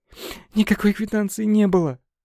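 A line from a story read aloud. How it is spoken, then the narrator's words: Sobbing answer. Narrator (Russian): ответила Лена, продолжая всхлипывать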